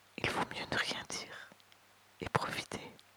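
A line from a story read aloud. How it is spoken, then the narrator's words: Whispered. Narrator (French): l'entendit-elle lui chuchoter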